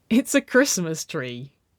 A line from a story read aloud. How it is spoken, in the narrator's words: Nicole chuckled